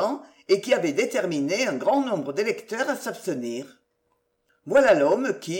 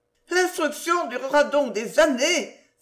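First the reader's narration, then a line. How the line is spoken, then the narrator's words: Exclaiming. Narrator (French): s'écria Mademoiselle Denise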